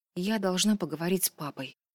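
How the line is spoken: Mumbled. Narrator (Russian): пробормотала она

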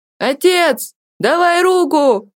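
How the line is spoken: Boy shouting from above. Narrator (Russian): крикнул мальчик сверху

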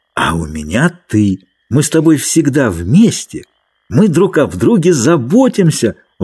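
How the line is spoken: Triumphant exclamation. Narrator (Russian): воскликнул Ленни с торжеством

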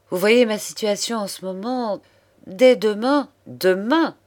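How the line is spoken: Indignant interruption. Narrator (French): interrompit d'une voix indignée

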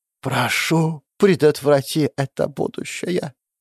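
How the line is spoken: Whispered. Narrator (Russian): прошептала

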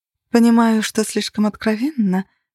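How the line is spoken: Purring through earpiece. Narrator (Russian): промурлыкала в моем наушнике Гэри

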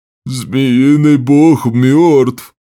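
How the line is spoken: Groaning raider. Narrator (Russian): Застонал налетчик

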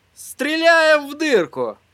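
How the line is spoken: Joyful announcement. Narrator (Russian): радостно возвестил он

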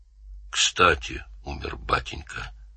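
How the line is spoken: Mutter. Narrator (Russian): пробормотал

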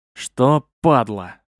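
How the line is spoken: Hoarse wheeze. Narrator (Russian): прохрипел я

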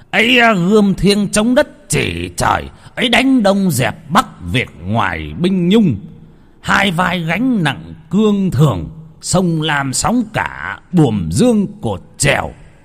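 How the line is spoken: Shouted. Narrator (Vietnamese): ông quát lên

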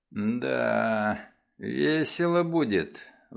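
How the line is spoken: Sighing. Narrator (Russian): вздохнул он

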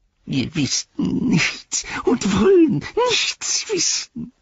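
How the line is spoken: Whimpering. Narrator (German): wimmerte

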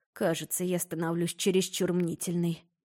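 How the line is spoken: Muttered under breath. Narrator (Russian): пробормотала под нос

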